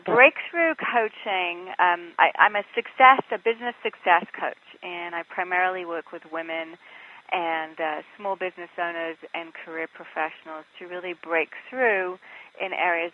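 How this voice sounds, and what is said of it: English accent. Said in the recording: “I'm originally from England, which is why I have this odd accent.”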